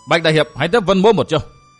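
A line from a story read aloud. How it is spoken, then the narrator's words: Shout. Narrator (Vietnamese): Vân Thiên Nhạc bóng quát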